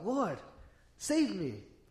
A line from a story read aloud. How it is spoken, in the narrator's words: Peter cried out